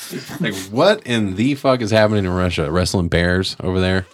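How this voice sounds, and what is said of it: Usual voice. Nothing is said of it.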